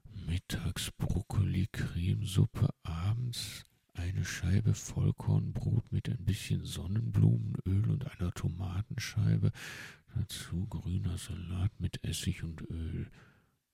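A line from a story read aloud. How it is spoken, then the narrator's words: Owl muttering to itself. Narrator (German): murmelte der Uhu vor sich hin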